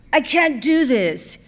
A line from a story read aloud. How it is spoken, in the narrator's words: he said urgently